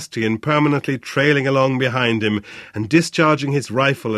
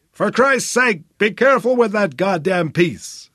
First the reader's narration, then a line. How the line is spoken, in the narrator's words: Flynn bellowed